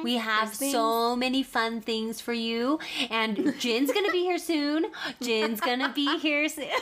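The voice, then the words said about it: Sweet coaxing mom voice. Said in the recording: “that was legit mom voice”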